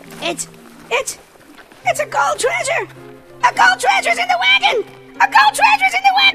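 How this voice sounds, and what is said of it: Excited screaming. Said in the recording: “stop screaming?”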